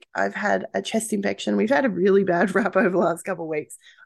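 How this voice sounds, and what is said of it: Croaky, slightly sick voice. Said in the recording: “my voice is a little bit croaky. Yes, I'm a little bit sick.”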